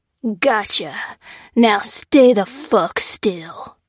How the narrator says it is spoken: snarled the tattooed man

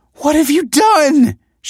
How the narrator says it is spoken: she cried

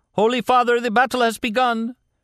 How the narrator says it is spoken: One of the priests called out

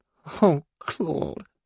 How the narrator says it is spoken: cries

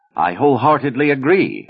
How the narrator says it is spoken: Aida retorted hotly

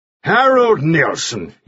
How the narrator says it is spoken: cried

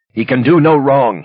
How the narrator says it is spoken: he shouted

